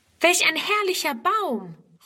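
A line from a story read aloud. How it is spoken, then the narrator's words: Calling. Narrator (German): ruft Friedrun sogleich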